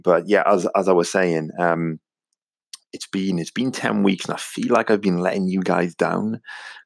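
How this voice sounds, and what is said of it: Welsh accent. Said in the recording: “my strange Welsh accent”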